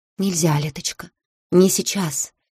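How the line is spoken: Whisper through closed lips. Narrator (Russian): Каитара шептала, почти не разжимая губ

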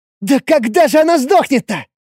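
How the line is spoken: Exasperated exclamation. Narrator (Russian): В сердцах воскликнула тень

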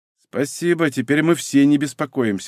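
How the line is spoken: Through gritted teeth. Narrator (Russian): сквозь зубы проговорила Варя

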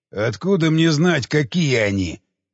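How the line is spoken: Snapping retort. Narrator (Russian): огрызнулся Громила

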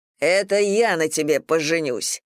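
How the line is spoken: Bark. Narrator (Russian): рявкнул Юра

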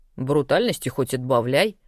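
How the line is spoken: Snorting nightmare creature. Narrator (Russian): хмыкнул новоявленный кошмар

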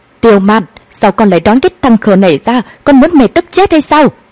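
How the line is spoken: Furious loud shout. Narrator (Vietnamese): Hoàng Kế Lan bà ta tức giận điên người hét lớn

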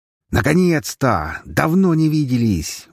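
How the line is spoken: Roaring. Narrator (Russian): взревела Гхара

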